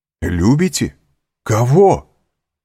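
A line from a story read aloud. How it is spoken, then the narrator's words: Exclamation. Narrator (Russian): воскликнул Монте-Кристо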